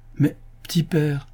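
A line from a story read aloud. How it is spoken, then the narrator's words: Exclaiming with laughter. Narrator (French): s'écria Yossel, riant aux éclats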